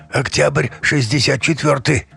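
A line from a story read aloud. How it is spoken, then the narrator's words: Hoarse drunkard. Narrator (Russian): хрипло ответил алкаш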